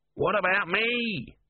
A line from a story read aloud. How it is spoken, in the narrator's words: whined Om